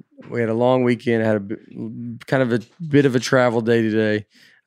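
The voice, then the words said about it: Tired, worn voice. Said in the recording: “Sorry, my voice is. I'm very tired.”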